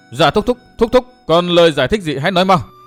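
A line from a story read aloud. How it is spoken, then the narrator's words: Loud bellow. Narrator (Vietnamese): Phong Lôi Thần quát lớn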